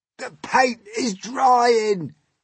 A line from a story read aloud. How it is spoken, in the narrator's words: he moaned